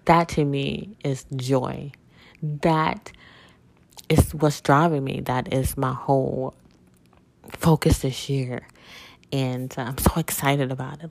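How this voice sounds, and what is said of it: Choked-up, emotional voice. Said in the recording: “you can tell in my voice, like I'm like, oh my god, I'm been choked up”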